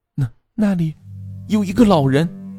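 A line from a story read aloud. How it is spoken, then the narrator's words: Frightened trembling voice. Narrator (Chinese): 小青恐惧地，声音因为害怕已变得颤抖起来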